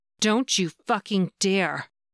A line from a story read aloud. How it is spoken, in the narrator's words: she snarled